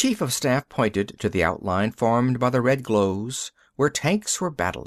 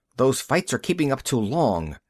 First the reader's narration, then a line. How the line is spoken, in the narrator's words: he said sharply